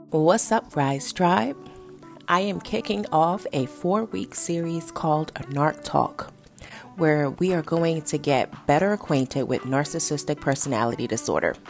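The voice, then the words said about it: Raspy, nasal voice from a cold. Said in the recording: “I sound a little raspy, a little nasally. I am getting over a head cold, and yes, it does it does affect my throat. I have a sore throat”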